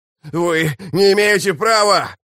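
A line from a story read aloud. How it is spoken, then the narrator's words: Loud wail. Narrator (Russian): завопил Рад Феннер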